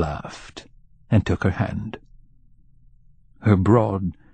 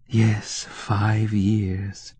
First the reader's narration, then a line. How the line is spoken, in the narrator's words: Tanya sighed